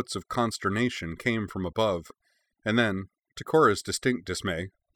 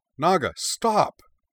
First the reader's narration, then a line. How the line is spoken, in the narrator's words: she cried